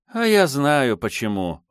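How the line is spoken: Cook sighing. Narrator (Russian): вздохнула кухарка

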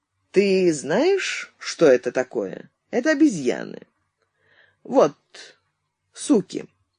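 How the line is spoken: Unexpectedly calm explanation. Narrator (Russian): Изя неожиданно спокойным голосом объяснил

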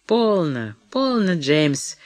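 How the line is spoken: Drunken unembarrassed babbling. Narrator (Russian): пьяно лепетала она, ничуть не смутившись

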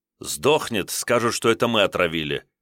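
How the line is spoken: Angry cursing. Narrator (Russian): Акимов зло помянул парижскую богоматерь

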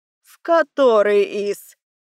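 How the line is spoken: Lazy lady's question. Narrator (Russian): Лениво уточнила дама

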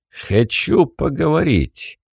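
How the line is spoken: Grunting. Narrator (Russian): хмыкнул головорез

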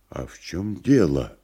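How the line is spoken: Quiet question. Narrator (Russian): тихо спросил Никанор Иванович

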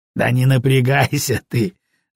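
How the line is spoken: Laughing. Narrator (Russian): засмеялся Долгушин

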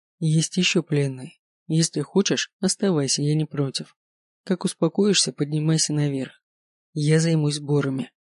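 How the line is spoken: Calm. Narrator (Russian): спокойно ответил

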